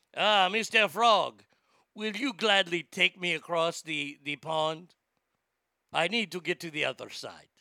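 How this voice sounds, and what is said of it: Put-on French accent. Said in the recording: “I'm making the scorpion sound French”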